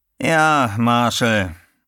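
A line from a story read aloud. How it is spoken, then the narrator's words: Tired voice. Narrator (German): sagte Macpherson mit müder Stimme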